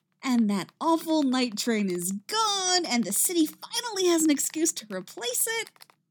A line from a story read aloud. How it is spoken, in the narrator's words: Patty says happily